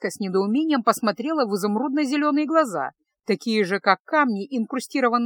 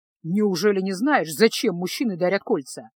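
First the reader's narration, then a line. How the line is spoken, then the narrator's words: Grumbling. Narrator (Russian): проворчал маг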